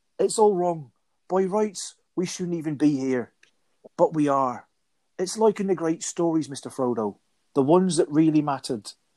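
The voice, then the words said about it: Samwise Gamgee impression. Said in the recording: “my Samwise voice ... I'm doing my Samwise.”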